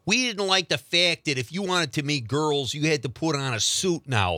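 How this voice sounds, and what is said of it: Put-on Chicago accent. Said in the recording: “That's a good Chicago accent”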